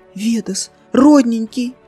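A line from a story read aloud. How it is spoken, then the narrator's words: Babbling. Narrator (Russian): залепетала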